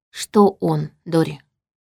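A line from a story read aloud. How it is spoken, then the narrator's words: Quiet question. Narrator (Russian): тихо спросила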